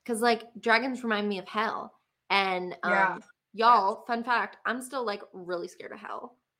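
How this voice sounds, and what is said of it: Southern American accent. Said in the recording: “My southern accent's coming out.”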